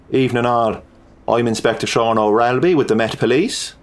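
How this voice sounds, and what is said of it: Purring Irish accent. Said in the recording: “He purred with a Celtic accent from over the Irish Sea.”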